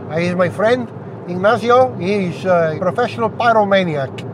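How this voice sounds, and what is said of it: Poor put-on Mexican accent. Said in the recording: “It's a terrible Mexican accent, wasn't it?”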